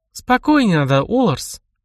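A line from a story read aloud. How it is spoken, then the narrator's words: Soft. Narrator (Russian): мягко произнесла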